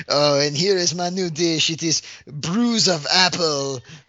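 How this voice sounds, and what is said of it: Put-on exaggerated accent. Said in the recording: “Don't do that accent ever again.”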